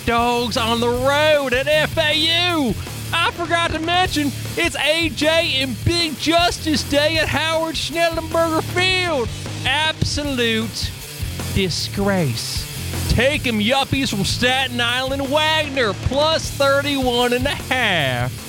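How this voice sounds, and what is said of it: Put-on Southern accent. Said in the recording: “Where the hell did this accent come from? ... I channeled my southern roots.”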